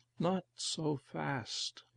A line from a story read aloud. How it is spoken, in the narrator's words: Lingman murmured